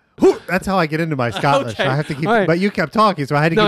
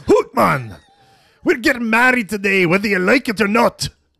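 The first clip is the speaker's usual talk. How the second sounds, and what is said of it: Put-on Scottish accent. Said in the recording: “You do a good Scottish accent.”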